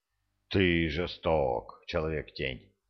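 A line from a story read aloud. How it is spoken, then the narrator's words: Sighing dragon. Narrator (Russian): дракон вздохнул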